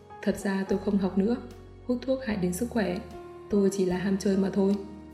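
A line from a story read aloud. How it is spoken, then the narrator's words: Soft laugh. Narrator (Vietnamese): Dư Ý cười khẽ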